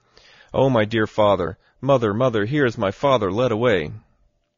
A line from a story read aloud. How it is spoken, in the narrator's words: Elizabeth cried, saying